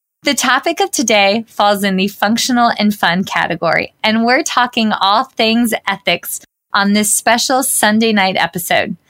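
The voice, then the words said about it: Thick Southern American accent. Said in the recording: “one of the most gracious and kind Southern women I know, although my accent may be slightly a bit thicker”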